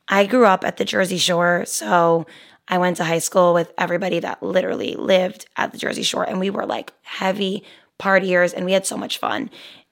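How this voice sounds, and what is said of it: Hoarse, partly lost voice. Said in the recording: “as you guys can tell by my voice ... this whole voice being lost kind of happened”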